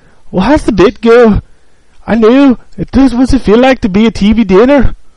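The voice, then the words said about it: Poor imitation of Scottish accent. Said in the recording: “that's a piss poor Scottish accent. ... That was terrible. ... I'm trying to impersonate him.”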